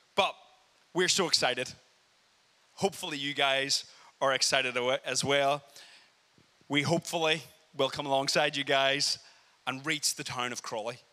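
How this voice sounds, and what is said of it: Northern Irish Belfast accent. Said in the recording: “you can tell by my accent, me and Julia are both from Belfast... you guys are used to the Irish accent”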